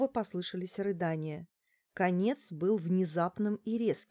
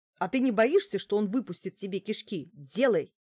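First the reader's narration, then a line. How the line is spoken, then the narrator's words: Barking shout. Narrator (Russian): рявкнула я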